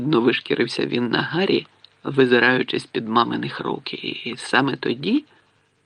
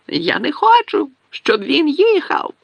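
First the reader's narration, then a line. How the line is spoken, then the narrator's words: Shrieking amid fake sobs. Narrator (Ukrainian): верещав Дадлі в паузах між удаваними риданнями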